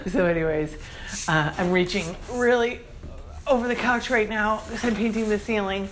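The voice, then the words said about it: Strained voice. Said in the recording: “my voice is straining”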